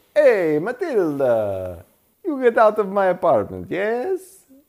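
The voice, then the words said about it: Mock Italian accent. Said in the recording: “If it were Italian, he would have said”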